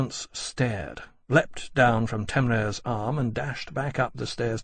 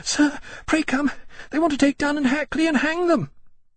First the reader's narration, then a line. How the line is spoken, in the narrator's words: panting she reached them and said